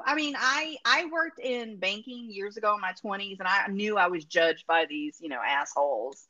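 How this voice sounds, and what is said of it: Speaks with a noticeable accent. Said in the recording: “because of my accent ... Based on my accent”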